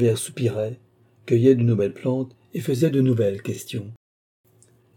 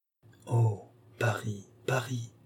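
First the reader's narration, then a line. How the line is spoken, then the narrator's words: Murmuring. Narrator (French): murmura-t-il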